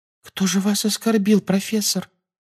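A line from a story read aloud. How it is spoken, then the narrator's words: Timid babbling. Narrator (Russian): пролепетала Парвати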